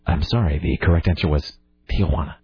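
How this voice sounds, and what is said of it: Soft close-mic Alex Trebek impression. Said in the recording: “you don't sound like Alex Trebek ... I was trying to do like a little mannerism, which is basically just me getting right on the mic and talking uh, softly”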